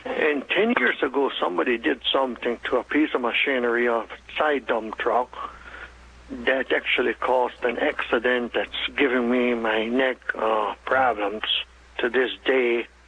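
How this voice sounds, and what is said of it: German-Russian Hutterite-accented English. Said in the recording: “due to my German, Russian, Ukraine, and Hutterish accent, you might have a problem understanding me”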